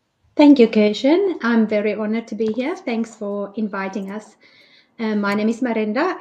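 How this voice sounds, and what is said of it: South African accent. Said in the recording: “I'm from South Africa. That's why you hear the accent.”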